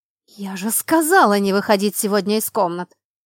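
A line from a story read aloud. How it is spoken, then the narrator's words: Angry growl. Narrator (Russian): Рыкнула на нее я, злясь, что принцесса не смогла найти другого времени на что бы то ни было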